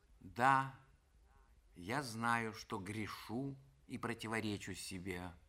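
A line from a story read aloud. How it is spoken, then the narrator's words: Sad confession. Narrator (Russian): грустно сознавалась она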